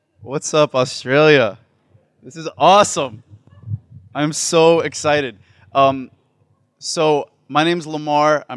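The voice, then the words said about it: New Orleans accent. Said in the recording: “is from New Orleans, Louisiana, so enjoy his accent.”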